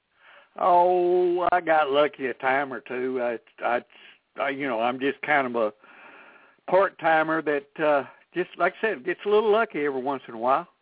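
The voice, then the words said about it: Texas accent. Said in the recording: “He has a Texas accent ... Deep Northeast Texas.”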